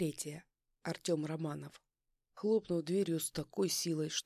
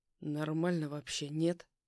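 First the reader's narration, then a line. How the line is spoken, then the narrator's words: Through gritted teeth. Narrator (Russian): Процедил я сквозь зубы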